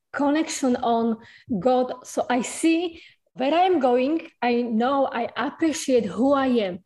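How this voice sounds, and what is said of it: Very strong foreign accent. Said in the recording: “You have a beautiful accent, but it's a very strong accent.”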